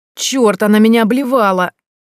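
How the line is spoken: Yelled. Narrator (Russian): завопил Горшков

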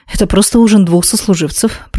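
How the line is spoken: Mumbled. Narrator (Russian): пробормотала я

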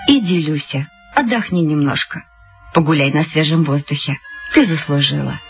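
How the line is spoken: Tender. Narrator (Russian): ласково сказала

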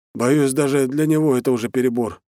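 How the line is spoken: Forced smiling. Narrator (Russian): выдавил из себя улыбку разведчик

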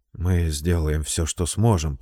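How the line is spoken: Muttering. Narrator (Russian): пробормотал Келлан

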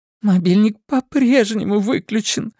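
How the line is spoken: Sobbing. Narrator (Russian): всхлипнула Синтия

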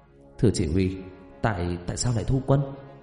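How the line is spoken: Hurried whisper. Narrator (Vietnamese): Tên lính vội thì thầm

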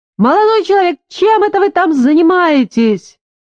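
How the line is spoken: Loud screaming. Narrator (Russian): Она во весь голос завопила

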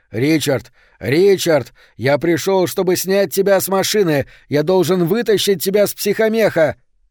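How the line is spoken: Shouting. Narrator (Russian): немец закричал

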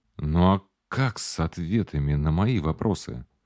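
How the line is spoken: Whisper. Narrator (Russian): прошептал я

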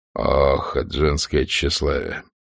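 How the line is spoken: Sighing. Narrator (Russian): вздохнул Ред

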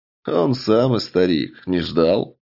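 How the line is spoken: Chuckling. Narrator (Russian): хохотнул однорукий маг

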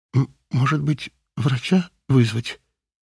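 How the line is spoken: Uncertain question. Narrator (Russian): неуверенно спросила Юлия

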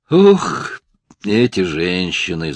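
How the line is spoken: Groan. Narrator (Russian): застонал Хейнс

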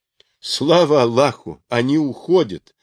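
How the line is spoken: Plain. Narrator (Russian): сказал Караджихан

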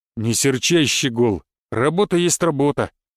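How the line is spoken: Deep bass male voice. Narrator (Russian): пробасил мужик

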